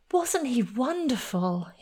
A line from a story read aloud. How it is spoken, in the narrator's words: he exclaimed